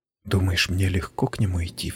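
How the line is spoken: Sudden whisper. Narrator (Russian): вдруг прошептала она

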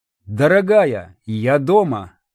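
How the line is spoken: Loud, laughing, movie-style call. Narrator (Russian): произнес я в пустоту, на манер старых американских фильмов, сам смеясь своим словам, громко крикнул

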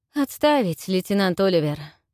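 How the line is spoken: Breathed out. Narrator (Russian): выдохнул Широ

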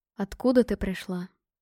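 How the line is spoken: Soft question. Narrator (Russian): спросил он мягко

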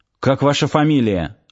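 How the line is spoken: Curt, clipped. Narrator (Russian): отрывисто бросил Сошин

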